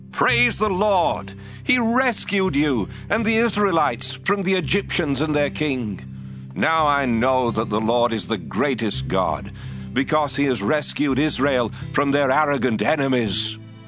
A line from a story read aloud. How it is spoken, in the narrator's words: Jethro was so pleased to hear this good news about what the Lord had done that he shouted